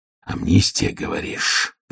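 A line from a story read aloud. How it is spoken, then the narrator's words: Growl. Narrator (Russian): прорычал Ваймс Диккенсу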